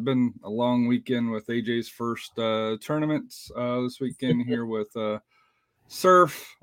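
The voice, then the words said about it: Raspy voice. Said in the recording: “my voice is probably a little bit raspy”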